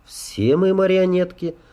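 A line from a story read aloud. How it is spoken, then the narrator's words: Calm. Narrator (Russian): спокойно проговорила Элар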